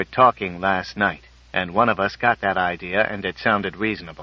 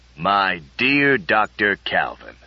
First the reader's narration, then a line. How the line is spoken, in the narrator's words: rumbled the general, his voice sinking into the lower baritone registers